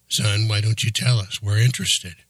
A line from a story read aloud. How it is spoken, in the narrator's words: Stu said